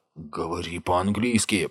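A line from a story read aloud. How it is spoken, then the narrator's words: Hissed. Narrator (Russian): прошипел Томми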